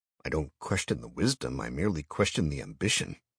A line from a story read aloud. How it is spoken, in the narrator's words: I murmured